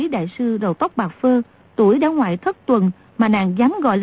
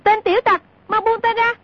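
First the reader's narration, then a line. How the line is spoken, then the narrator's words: Shouting. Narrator (Vietnamese): la lên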